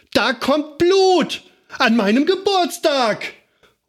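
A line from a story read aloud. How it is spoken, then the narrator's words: Screaming in pain. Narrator (German): sie schrie und schrie und schrie, weil sie blutete und weil sie eine kleine Beule an der Stirn hatte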